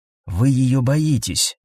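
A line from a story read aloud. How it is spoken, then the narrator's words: Quick whisper. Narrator (Russian): быстро прошептал Каэтан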